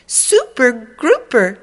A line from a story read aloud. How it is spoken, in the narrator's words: she exclaimed